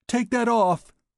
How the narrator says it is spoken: she cried angrily

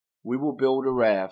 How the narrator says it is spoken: said Vasudeva

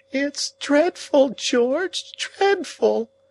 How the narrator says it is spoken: the lady cried in an agony of sobs

